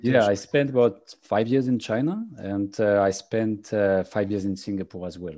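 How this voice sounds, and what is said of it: French accent in English. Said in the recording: “You're having a French accent when you speak English”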